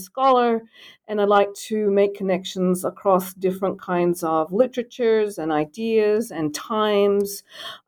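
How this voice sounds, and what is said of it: Australian accent. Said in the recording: “identify my accent ... the accent, being from Australia”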